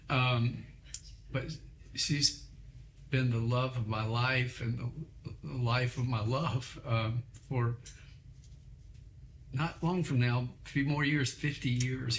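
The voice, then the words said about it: Teary, emotional voice. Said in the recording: “I think the meds are making me a little teary”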